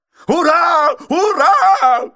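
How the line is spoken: Excited shouting. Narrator (Russian): кричал мистер Адамс, возбужденно подпрыгивая на своем диванчике

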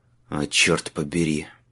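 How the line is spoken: Sighing. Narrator (Russian): вздохнул Майлз

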